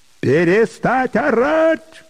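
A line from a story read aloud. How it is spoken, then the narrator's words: Sudden high-pitched shout. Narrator (Russian): вдруг тонким голосом крикнул Петр Григорьевич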